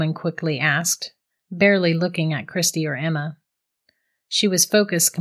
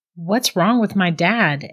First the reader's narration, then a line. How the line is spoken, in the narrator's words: Emma stammered